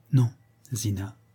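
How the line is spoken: Quiet reply. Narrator (French): répondit-elle tout bas

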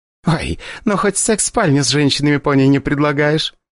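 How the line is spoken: Laughing. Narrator (Russian): засмеялась Дарья

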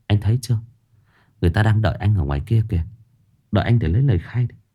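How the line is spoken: Whisper. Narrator (Vietnamese): Bác sĩ Xuân lại thì thầm

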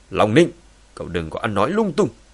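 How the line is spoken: Angry shout. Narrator (Vietnamese): Long Tường giận dữ quát

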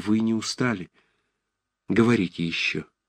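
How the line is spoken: Timid. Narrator (Russian): Ромашов сказал робко

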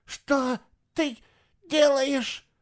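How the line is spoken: Hoarse rasp. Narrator (Russian): прохрипела Эва

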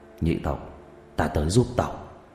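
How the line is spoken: Low mutter. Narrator (Vietnamese): Người đàn ông cúi đầu lẩm bẩm trong miệng

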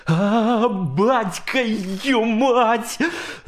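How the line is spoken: Loud yelling. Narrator (Russian): заорал Грохотало

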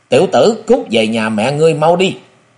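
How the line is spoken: Deep-voiced shout, big man. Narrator (Vietnamese): tên cao lớn trầm giọng quát

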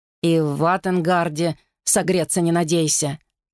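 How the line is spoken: Muttering. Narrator (Russian): пробурчал Вэл

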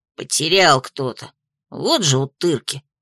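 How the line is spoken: Grumbling. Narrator (Russian): проворчал Хомка

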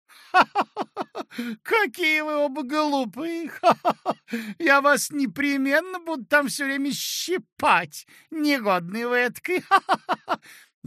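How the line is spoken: Laughing to tears. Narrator (Russian): расхохоталась до слезинок

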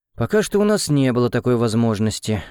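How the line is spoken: Sighing. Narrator (Russian): вздохнул Александр Олегович

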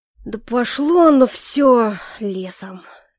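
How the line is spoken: Heavy exhale, interrupting. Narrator (Russian): Тяжело выдохнул Эльфорте, перебивая коллегу

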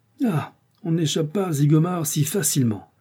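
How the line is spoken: Crying out. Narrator (French): s'écria

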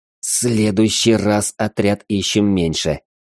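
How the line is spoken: Grumble through teeth. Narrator (Russian): сквозь зубы проворчал он

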